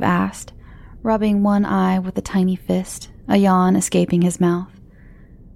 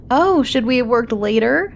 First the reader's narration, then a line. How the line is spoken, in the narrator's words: He laughed